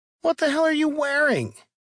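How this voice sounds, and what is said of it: Surprised falsetto voice. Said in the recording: “sent his voice into a falsetto of surprise”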